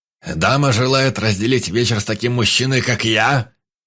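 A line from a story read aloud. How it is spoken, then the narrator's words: Booming shout amid laughter. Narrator (Russian): Гаркнул на весь зал под общий хохот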